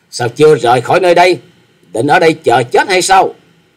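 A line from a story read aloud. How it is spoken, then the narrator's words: Angry girl's shout. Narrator (Vietnamese): Thiếu nữ áo đỏ nổi giận hét to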